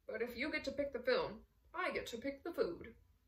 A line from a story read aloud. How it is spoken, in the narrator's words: Ossip sighed